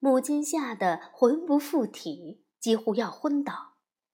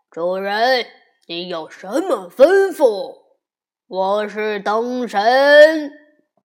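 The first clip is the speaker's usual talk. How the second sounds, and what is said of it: Booming thunderous giant's voice. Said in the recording (Chinese): “一个妖怪模样的巨人...用雷鸣般的声音说”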